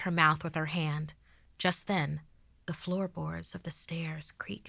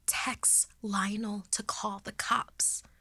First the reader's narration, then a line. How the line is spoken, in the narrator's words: she haggardly whispered